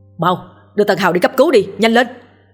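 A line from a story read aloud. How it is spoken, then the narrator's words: Frantic wailing shout. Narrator (Vietnamese): la bù lu bù loa gào lên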